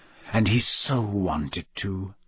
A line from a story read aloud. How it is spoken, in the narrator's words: whispered Moody